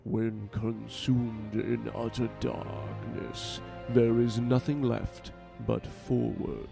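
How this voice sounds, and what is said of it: Deep character voice impression. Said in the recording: “my terrible impression ... Not quite as deep as I imagine him”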